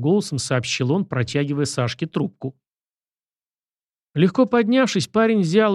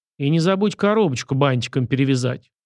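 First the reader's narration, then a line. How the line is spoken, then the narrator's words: Snorting. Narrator (Russian): фыркнул Сашка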